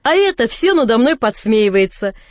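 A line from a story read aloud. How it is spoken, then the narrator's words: Old man exclaiming delightedly. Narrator (Russian): вскричал старик с восторгом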